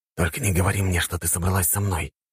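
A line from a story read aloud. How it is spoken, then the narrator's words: Quiet whisper. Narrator (Russian): тихо прошептал я, чтобы никто не услышал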